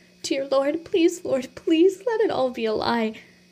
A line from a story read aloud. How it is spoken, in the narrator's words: she choked out